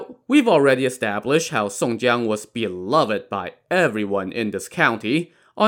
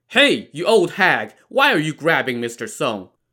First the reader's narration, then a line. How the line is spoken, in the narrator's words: He yelled